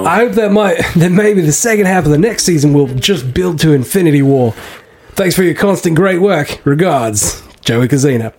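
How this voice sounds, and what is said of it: Subtle put-on Australian accent. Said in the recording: “accent, although it was understated. I liked it. It was a good accent. ... You didn't go over the top. ... You just had like a nice little Australian in the back there. ... just a little Melbourne”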